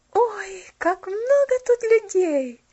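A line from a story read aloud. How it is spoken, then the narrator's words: Joyful female exclamation. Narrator (Russian): воскликнула она радостно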